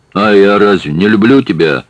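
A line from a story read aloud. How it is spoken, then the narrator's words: Angry bark. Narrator (Russian): рявкнул Шаваль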